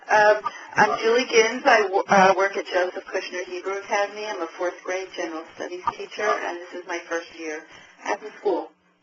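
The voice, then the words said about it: Hoarse, failing voice. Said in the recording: “I'm losing my voice.”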